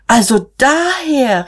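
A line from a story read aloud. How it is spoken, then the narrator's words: Exclaimed. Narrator (German): rief Magda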